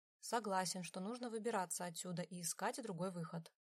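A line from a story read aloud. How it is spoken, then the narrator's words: Plain. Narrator (Russian): наконец сказал Адриан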